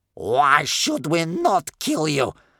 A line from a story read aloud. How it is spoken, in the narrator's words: asked Bear Cub's grandmother in a dreadful, angry voice